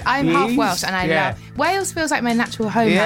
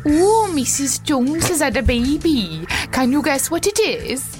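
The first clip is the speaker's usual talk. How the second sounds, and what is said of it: Put-on Welsh accent. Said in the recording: “Can you do a Welsh accent?”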